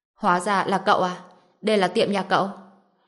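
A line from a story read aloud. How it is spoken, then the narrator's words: Cold. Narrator (Vietnamese): Sắc mặt Trần Bình lạnh lùng, nhíu mày, nói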